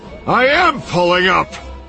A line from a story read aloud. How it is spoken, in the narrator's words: Han yelled